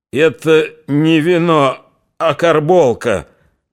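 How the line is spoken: Furious hoarse rasp. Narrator (Russian): Прохрипел он и в ярости

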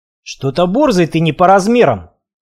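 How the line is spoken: Deep bass, burly man. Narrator (Russian): пробасил самый здоровый из них

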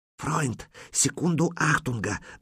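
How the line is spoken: Hissing whisper. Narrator (Russian): донесся до него свистящий шепот

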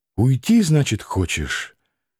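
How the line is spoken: Soft whisper. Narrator (Russian): тихо прошептала

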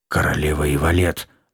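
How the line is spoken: Muffled mutter. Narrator (Russian): Глухо буркнул кто-то сзади

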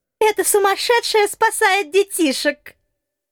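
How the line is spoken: Group giggling. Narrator (Russian): хихикнули липовые воины в матросках

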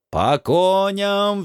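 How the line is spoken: Roar. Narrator (Russian): взревел я

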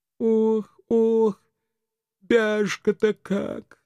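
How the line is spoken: Moaning house spirit. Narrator (Russian): застонал домовой

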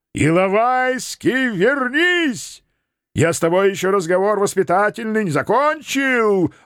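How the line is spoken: Yelling after someone. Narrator (Russian): орал вслед мой знаменитый родственник

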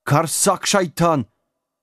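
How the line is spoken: Group of panicked screams. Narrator (Russian): В голос завопила вся троица местных

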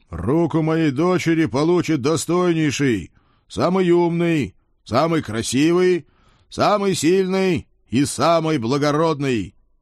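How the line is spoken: Throat cleared, loud announcement. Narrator (Russian): прокашлялся, громко объявил

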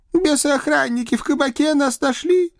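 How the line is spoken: Mournful sob. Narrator (Russian): скорбно всхлипнул тот же Моня

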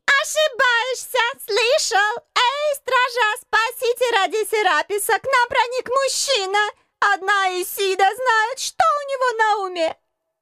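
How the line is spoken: Shrill shout, woman. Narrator (Russian): Визгливо крикнула дама в бигуди

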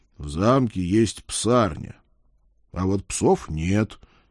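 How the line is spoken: Slow, unhurried. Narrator (Russian): так же медленно продолжил я

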